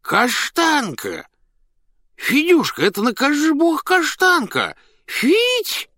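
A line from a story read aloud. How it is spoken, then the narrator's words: Loud call, child and man. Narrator (Russian): два голоса, один детский, другой мужской, громко позвали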